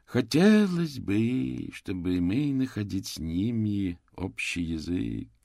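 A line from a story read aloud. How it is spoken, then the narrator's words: Dreamy drawl. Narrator (Russian): протянул маркиз мечтательно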